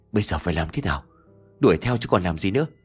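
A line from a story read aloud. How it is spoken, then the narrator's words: Trembling, breathless voice. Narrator (Vietnamese): đáp lại bằng một giọng run rẩy như kẻ yếu hơi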